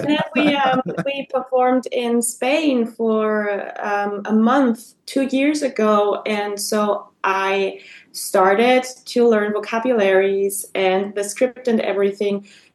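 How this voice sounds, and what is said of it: Non-native accent in English. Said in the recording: “We can't get rid of our accent”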